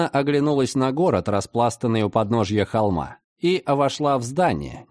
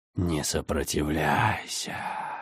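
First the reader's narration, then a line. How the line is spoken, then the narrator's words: Whisper inside head. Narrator (Russian): зашептала где-то в лобных долях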